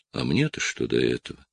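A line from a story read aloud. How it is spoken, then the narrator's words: Tired voice. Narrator (Russian): Я думаю о погибели, которая сейчас возвращается домой по горам, и говорю устало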